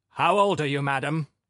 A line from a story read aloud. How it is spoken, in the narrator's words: Philip Filippovich repeated even more sternly